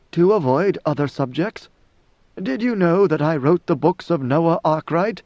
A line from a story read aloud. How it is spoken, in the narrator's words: She could not suppress a chuckle